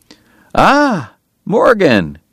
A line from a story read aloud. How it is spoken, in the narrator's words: Doc cried genially